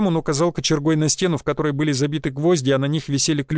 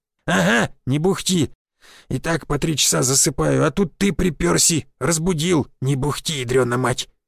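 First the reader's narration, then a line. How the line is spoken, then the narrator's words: Grumbling old man. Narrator (Russian): проворчал старый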